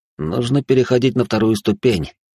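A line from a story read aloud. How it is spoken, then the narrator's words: Mutter under breath. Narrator (Russian): буркнул я себе под нос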